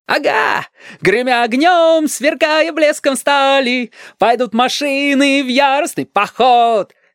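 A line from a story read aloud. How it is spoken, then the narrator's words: Jubilant yelling. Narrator (Russian): ликующе вопил Стасик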